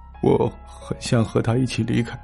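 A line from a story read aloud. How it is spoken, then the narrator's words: Low, tearful voice. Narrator (Chinese): 哭着哭着，他低声说道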